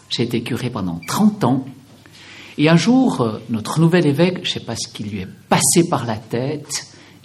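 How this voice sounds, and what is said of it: Swiss French accent from Valais. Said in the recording (French): “je viens encore d'un tout petit pays, la Suisse ... Je vais essayer de ne pas trop laisser chanter mon accent, mais je pense que ça sera impossible. Je suis né au pied des 4000, dans cette région qu'on appelle le Valais”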